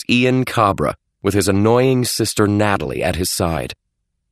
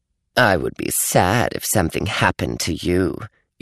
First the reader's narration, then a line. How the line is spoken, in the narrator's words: Ian purred